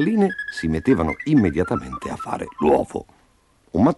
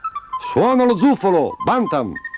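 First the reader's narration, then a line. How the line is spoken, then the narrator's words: Shouting. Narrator (Italian): gridava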